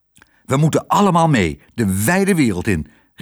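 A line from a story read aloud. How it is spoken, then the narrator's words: Called out. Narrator (Dutch): riep Lodewijk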